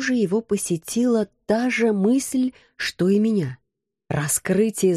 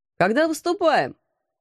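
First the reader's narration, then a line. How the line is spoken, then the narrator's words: Loud question. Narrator (Russian): громко спросил Алекс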